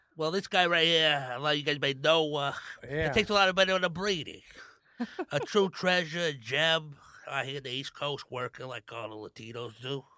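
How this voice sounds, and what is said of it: Put-on New York mobster accent. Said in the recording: “New York accent, bro, Tony Soprano ... You sound like you have sleep apnea”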